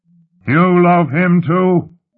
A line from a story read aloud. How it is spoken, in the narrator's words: Lut shouted